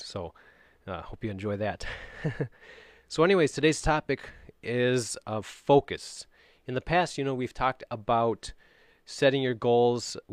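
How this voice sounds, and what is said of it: Cold-affected, deeper radio-like voice. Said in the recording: “excuse my voice. I'm dealing with a little bit of a cold ... it kind of gives me more of a radio voice.”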